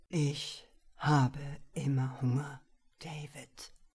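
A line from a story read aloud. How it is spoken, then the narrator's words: Dark voice. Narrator (German): sagte mit dunkler Stimme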